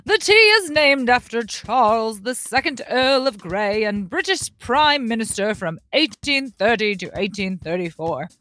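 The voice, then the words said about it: Put-on English accent. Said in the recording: “I feel like I should read this in an English accent.”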